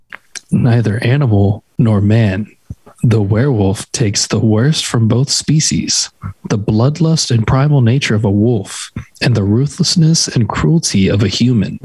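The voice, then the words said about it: Dramatic narrator voice. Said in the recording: “Can you do it in like a cool narrator voice? ... My voice doesn't have a lot of range”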